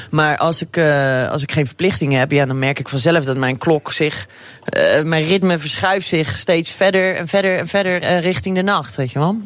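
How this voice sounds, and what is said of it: Rotterdam Dutch accent. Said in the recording (Dutch): “dat Rotterdamse accent blijft geweldig trouwens”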